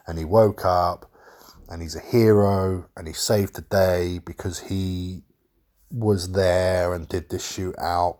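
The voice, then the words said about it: Slightly breathy voice with a cold. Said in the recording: “I've got a bit of a cold... if my voice is a bit funny or if I'm a little bit breathy or a little bit like wet-lipped”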